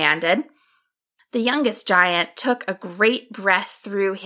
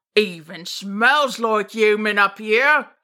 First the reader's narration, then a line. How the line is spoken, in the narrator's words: he rumbled